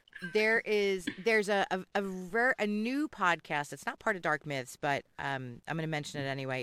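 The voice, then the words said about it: Philadelphia accent. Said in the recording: “my Philly accent”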